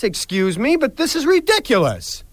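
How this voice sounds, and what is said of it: Angry yelling. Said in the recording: “because I blew up ... I'm sorry for yelling”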